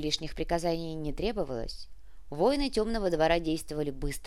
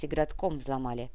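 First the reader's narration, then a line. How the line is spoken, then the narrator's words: Dry report. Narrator (Russian): сухо сообщил Артега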